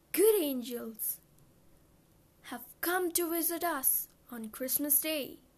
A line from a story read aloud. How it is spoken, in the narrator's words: she exclaimed joyfully